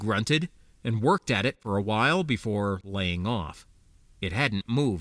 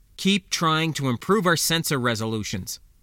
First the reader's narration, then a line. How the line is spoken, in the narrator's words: Ijak said firmly